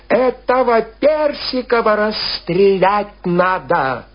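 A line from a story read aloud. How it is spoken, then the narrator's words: Shrill shouting voice. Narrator (Russian): чей-то визгливый голос кричал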